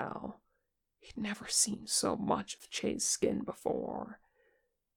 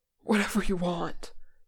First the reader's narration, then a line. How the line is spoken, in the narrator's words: Che panted, words tripping over themselves